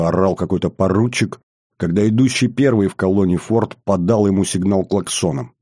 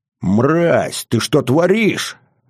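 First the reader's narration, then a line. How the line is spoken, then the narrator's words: Angry roar. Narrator (Russian): взревел этот лощеный хлыщ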